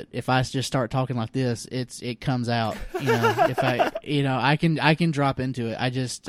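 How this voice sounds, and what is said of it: Deliberately stronger regional accent. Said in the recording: “I don't really have a strong accent, if you notice that. It's pretty innocuous, but I can drop into it.”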